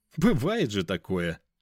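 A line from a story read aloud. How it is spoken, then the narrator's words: Young man's short laugh. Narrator (Russian): хохотнул молодой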